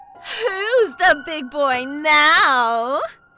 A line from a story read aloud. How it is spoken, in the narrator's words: she screamed